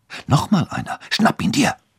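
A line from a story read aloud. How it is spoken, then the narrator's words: Whispered. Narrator (German): flüsterte Annabelle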